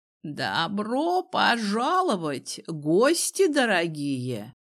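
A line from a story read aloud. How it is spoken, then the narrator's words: Creaky voice. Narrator (Russian): проскрипело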